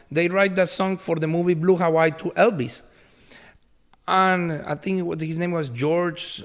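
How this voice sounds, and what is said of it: Accented English speech. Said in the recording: “even with my accent”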